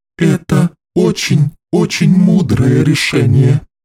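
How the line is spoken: Low hoarse girl. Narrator (Russian): низко и хрипло сказала девочка

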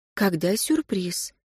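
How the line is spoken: Quiet question. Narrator (Russian): тихо спросила Катю Алла

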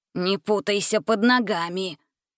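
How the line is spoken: Old man grumbling. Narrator (Russian): проворчал в ответ старик

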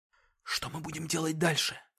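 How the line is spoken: Whispered question, young man. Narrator (Russian): шепотом спросил парень

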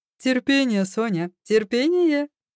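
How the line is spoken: Laughing. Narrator (Russian): засмеялся Илюша

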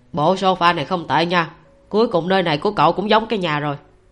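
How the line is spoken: Laughing loudly. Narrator (Vietnamese): Phương Húc cười lớn

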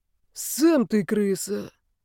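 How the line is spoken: Sudden hoarse voice. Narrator (Russian): вдруг сказала сиплым голосом куча тряпья

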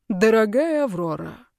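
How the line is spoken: Ruler exhaling, calmed. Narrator (Russian): правитель выдохнул, тоже уняв бурю внутри

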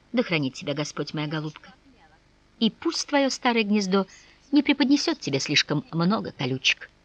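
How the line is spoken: Mumbling. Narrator (Russian): Она бормотала

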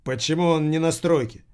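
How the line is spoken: Irritated question. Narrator (Russian): раздраженно спросил Кирилл

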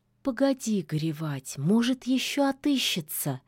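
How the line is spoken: Gentle. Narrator (Russian): мягко сказала речная царевна

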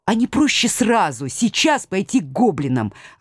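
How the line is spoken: Sharp interruption. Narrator (Russian): оборвала профессора я

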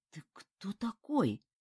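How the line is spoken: Weak mumble, voice returning. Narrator (Russian): пробормотал Ким, когда к нему вернулся голос

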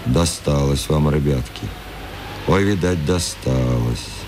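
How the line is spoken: Sighing, pitying. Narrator (Russian): вздохнул, покачал головой и пожалел

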